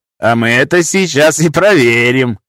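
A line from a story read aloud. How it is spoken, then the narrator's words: Loud laughter. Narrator (Russian): Громко захохотал балахонистый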